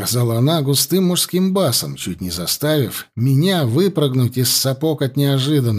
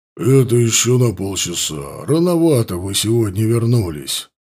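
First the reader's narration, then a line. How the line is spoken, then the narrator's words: Deep bass voice. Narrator (Russian): пробасила снова Адельхейд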